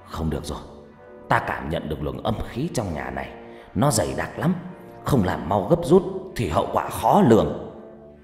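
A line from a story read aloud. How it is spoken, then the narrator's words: Harsh, stern voice. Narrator (Vietnamese): ông trừng mắt gằn giọng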